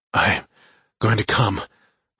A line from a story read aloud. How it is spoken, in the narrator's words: I whispered, then louder